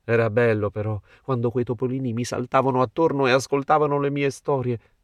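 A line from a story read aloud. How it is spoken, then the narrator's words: Wistful sigh. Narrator (Italian): sospirò l'abete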